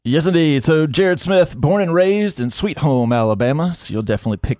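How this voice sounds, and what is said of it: Cool radio DJ-style voice. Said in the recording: “Voice sounds pretty cool. ... DJ voice. ... Do I have a radio voice?”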